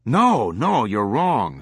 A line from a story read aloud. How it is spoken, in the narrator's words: Swango exclaimed